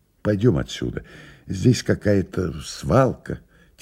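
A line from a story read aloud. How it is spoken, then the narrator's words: Quiet. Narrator (Russian): тихо сказал Илья Андреевич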